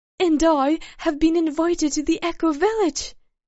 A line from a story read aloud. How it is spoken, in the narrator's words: as if this information burned his mouth, blurted out